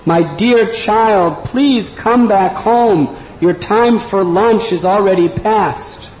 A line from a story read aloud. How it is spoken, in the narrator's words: She loudly cried